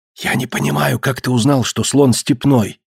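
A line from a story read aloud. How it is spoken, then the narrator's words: Whisper. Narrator (Russian): прошептал Пандион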